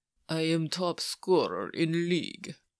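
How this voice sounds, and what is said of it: Bad put-on Russian villain accent. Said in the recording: “speak in a Russian accent? ... in a terrible Soviet villain voice straight out of a movie”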